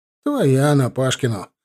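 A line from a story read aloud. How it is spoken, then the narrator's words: Laughing chuckle. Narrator (Russian): хохотнул комендант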